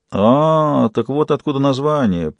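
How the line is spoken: Drawn-out, thoughtful. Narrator (Russian): протянул Фист задумчиво

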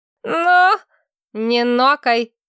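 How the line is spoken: Sharp rebuke. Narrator (Russian): прикрикнула Лаура

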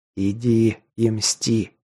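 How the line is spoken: Muttered. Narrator (Russian): пробормотал колдун

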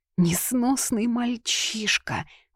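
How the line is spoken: Sigh. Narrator (Russian): вздохнула госпожа Утриш

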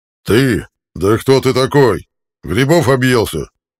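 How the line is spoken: Angry yelling. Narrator (Russian): Орал Зетир, сжимая кулачище

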